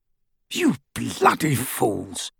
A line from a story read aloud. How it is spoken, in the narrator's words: said gruffly